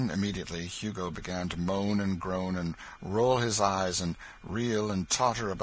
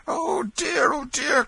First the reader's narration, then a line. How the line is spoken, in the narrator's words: cried the benevolent stranger